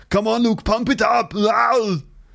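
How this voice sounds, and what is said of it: Arnold Schwarzenegger impression. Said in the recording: “I did a Arnold Schwarzenegger impression ... I can't do it that well”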